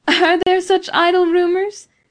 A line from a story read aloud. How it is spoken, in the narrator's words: asked Beatrice, with the music of a pleasant laugh